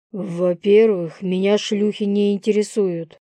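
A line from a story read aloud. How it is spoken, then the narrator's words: Growling. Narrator (Russian): прорычал я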